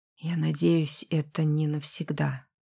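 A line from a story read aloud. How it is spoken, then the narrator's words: Whisper. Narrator (Russian): шепнул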